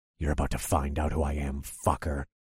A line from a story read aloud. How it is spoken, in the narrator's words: growled